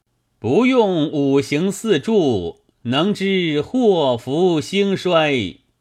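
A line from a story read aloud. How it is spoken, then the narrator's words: Calling from outside. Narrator (Chinese): 亭外有人叫道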